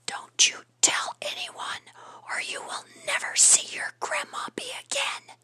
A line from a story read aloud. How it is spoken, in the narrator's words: his raspy, awful whisper in her ear saying